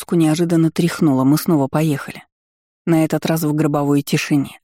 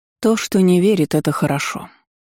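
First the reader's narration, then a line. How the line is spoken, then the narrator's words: Tired reply. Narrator (Russian): устало отозвалась Сайран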